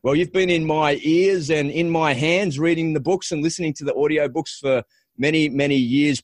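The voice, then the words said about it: Funny-sounding accent. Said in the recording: “a funny accent. ... And the funny accent to match.”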